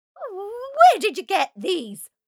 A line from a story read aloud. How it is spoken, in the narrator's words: barked stepmother